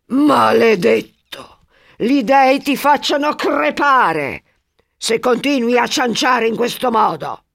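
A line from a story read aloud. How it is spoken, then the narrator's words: Angry shout. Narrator (Italian): gli grida contro Cnemone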